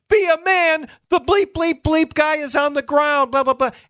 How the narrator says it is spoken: La Russa starts screaming again

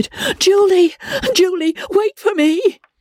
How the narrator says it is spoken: Strangely, cried

